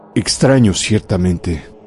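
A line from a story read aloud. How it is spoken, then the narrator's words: Murmur. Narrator (Spanish): murmuré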